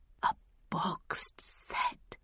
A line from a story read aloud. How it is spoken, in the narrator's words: he whispered